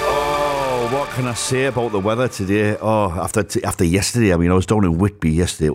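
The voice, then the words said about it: Geordie-sounding English accent. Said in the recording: “my accent, and I'm not even a Geordie. I know I sound like one... I talk like Arthur Daly”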